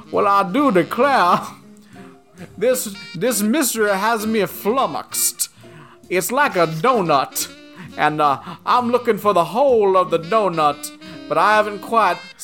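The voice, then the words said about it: Goofy rambling Southern-style drawl. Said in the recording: “Daniel Craig's accent is so insanely wonderfully delightful. Because it's the most goofy foghorn leghorn nonsense. And it's like he's just like rambling sometimes.”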